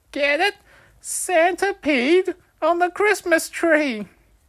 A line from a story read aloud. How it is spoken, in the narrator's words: I joined in laughing